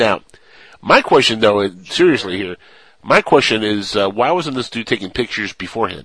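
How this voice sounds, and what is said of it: Usual voice. Nothing is said of it.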